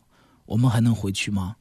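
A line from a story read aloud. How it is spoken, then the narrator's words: Soft question. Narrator (Chinese): 她轻声问我说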